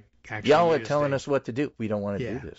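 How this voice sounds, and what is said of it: Put-on Nebraska accent. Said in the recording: “I think I just used maybe a Nebraska accent for that one.”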